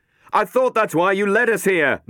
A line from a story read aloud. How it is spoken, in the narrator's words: Matt yelled back